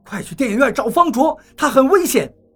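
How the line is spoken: Startled, shouting. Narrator (Chinese): 王八猛地惊醒，对我喊道

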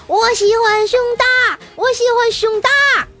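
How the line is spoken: Excited yelling. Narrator (Chinese): 特别兴奋的大叫

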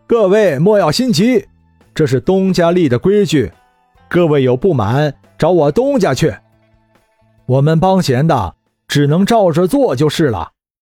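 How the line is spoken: Loud, smiling. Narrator (Chinese): 李直的二叔笑了笑，大声说道

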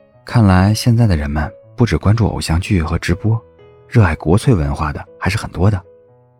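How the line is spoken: Low whisper. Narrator (Chinese): 谢景亭低声在孟婉婉的耳边说了一句话

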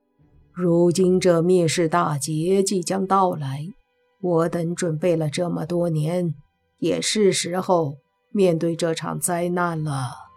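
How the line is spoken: Calm, flat. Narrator (Chinese): 披头散发的男子淡淡的开口，对着另外几道身影说道

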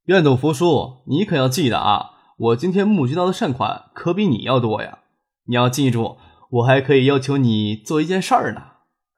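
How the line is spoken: Cheeky playful. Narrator (Chinese): 张克…嬉皮笑脸的说

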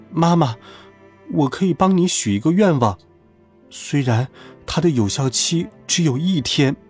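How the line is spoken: Tearful. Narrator (Chinese): 我立刻也哭了，哭了一会儿，我擦去眼泪…说道

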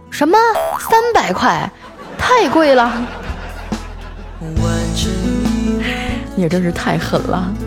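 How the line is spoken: Loud shout. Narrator (Chinese): 我就高声的喊道

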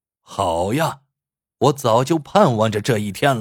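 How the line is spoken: Loud laughter. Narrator (Chinese): 杨鱼子仰天大笑

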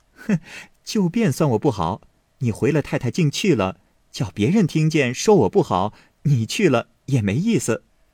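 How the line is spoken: Laughing. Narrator (Chinese): 宝玉笑道

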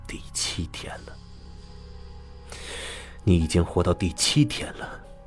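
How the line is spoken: Murmuring to oneself. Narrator (Chinese): 我喃喃自语

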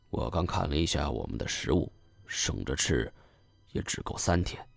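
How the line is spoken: Lowered voice. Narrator (Chinese): 压低声音道

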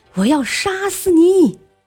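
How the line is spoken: Furious shout. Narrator (Chinese): 蓝鲸大叫道

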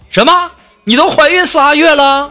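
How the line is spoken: Loud shout. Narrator (Chinese): 我立刻大声就喊

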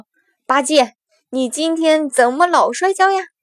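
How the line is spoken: Laughing heartily. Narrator (Chinese): 孙悟空哈哈大笑说

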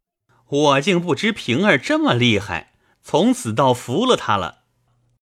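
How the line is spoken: Laughing. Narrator (Chinese): 贾琏 拍手笑道

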